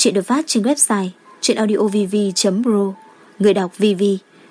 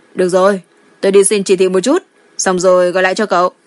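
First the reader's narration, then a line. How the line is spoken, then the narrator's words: Laughing, calm. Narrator (Vietnamese): Lý Độn thật sự cười to, bình tĩnh nói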